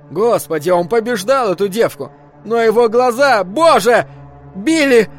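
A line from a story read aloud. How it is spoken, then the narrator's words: Scream. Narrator (Russian): закричала Абра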